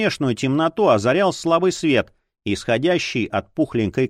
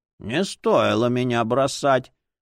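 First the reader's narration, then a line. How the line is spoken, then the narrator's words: Indignant old voice. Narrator (Russian): возмутилась книга старческим голосом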